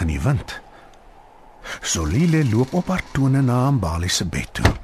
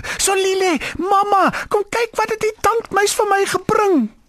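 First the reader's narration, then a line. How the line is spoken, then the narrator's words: Excited calling. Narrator (Afrikaans): Mbali roep opgewonde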